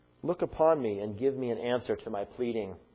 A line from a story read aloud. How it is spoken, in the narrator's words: David asks